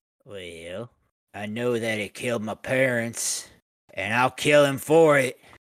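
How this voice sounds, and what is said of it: Gruff mountain man character voice. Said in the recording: “Are you doing a Mountain Man impersonation?”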